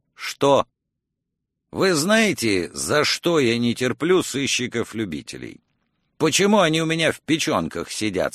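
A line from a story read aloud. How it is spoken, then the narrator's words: Plain. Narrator (Russian): спросил Крамли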